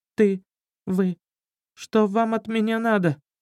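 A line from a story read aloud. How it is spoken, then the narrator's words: Thief's trembling question. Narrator (Russian): Дрожащим голосом воришка спросил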